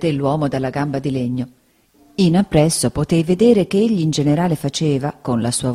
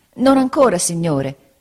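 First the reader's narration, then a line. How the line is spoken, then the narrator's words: Pained exclamation. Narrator (Italian): esclamai indietreggiando per il dolore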